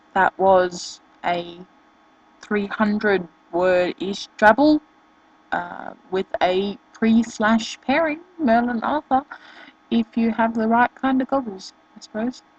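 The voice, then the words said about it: Australian English accent. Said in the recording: “Sorry about my accent, not English, I'm Australian”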